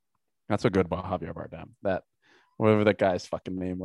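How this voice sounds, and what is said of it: Usual voice. Nothing is said of it.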